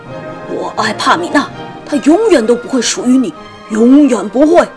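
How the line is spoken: Roaring. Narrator (Chinese): 他咆哮道

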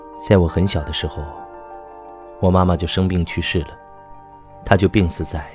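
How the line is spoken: Calm flat narration. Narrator (Chinese): 小芝淡淡的叙述着

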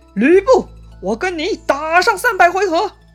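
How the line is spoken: Loud battle shout. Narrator (Chinese): 张飞嘴里还在大喊

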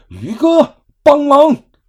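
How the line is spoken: Shouting. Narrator (Chinese): 大喊道

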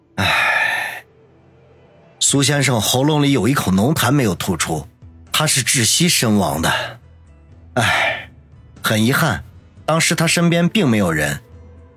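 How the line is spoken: Calm sighing. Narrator (Chinese): 那名医生并没有露出丝毫的慌张之色来，只是叹息道

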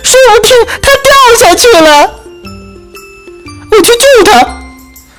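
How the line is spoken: Squeaky, urgent. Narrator (Chinese): 松鼠吱吱叫

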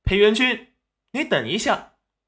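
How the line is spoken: Sudden calling out. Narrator (Chinese): 齐云染突然叫住他

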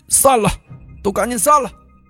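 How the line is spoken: Shouted. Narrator (Chinese): 杨万军又喊了一句

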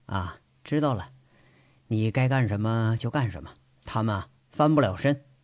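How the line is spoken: Flat, indifferent. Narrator (Chinese): 淡淡的说一句

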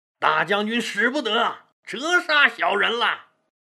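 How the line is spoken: Flustered, repeated exclamations. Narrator (Chinese): 李左车受宠若惊，连喊

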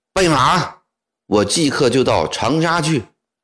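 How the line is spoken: Loud, angry shout. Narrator (Chinese): 左宗棠越说越气，高声喊道

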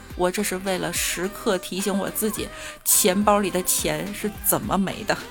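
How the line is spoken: Wry bitter laugh. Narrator (Chinese): 哥们儿苦笑一声说

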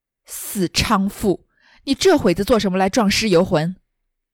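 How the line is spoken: Furious cursing. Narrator (Chinese): 一腔心头变作了一腔恶怒 骂道

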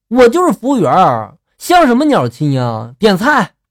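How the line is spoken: Angry roar. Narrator (Chinese): 我当时一听就怒了，吼道

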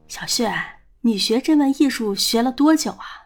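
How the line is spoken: Eager asking. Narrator (Chinese): 他终于忍不住问道

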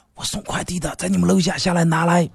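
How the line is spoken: Lowered voice. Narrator (Chinese): 快递也压低声音说

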